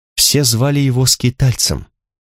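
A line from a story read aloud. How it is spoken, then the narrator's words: Suddenly quiet. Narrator (Russian): неожиданно тихо сказала Алана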